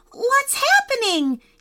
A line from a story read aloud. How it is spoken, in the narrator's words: he cried